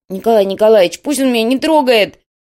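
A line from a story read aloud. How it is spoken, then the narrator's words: Wailing. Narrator (Russian): завопил тот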